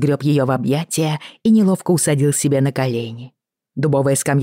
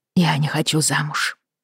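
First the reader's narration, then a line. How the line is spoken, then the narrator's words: Choked whisper. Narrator (Russian): сдавленно прошептала Бриана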